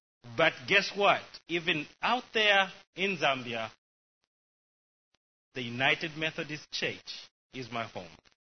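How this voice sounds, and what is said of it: Zambian-accented English. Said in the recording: “As you may guess by my wonderful accent, I was born in a wonderful place called Zambia”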